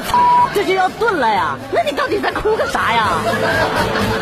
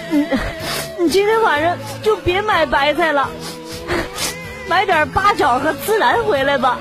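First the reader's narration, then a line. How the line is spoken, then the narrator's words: Sobbing woman. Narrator (Chinese): 女朋友哭的稀里哗啦的，一边哭一边跟我说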